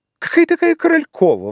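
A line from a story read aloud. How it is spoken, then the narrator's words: Exclaiming. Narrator (Russian): воскликнула Пряхина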